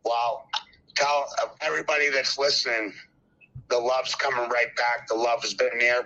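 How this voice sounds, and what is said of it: Boston accent. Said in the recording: “your Boston accent”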